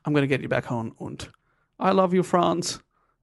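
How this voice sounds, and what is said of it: Put-on German accent. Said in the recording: “Why do I sound German?”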